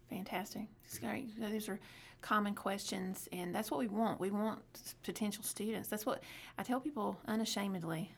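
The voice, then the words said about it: Southern American accent. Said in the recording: “our southern accents ... trying to adjust your hearing to our accents”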